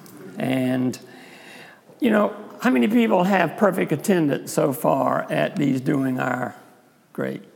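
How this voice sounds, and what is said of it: South Carolina accent. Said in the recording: “my South Carolina accent”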